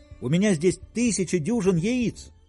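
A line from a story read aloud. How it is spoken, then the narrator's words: Shouted back. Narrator (Russian): крикнул он в ответ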